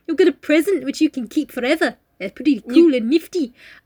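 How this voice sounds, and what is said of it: Put-on New Zealand accent. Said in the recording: “I don't know what this accent is. I'm sorry if I'm offending you. I was kind of going for New Zealand.”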